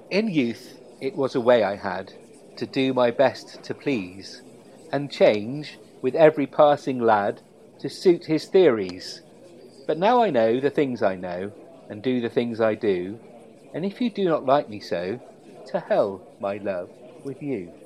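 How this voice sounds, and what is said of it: Theatrical poetry-reading voice. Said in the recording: “my best poetry reading voice, which is world renowned”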